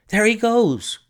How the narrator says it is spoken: cried Hall Pycroft

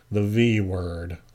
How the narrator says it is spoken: I murmured

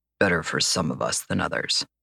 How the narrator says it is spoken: Jonathan muttered

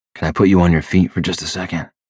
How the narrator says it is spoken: I whisper

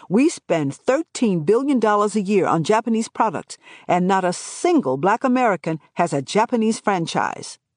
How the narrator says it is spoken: loudly challenged, telling

